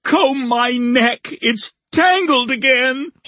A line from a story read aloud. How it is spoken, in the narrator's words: he wailed